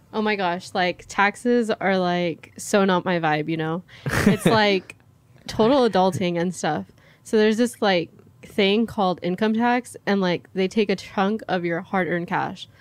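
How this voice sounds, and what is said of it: Exaggerated Valley girl accent. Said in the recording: “Valley girl. ... That's a specific accent. ... In an accent.”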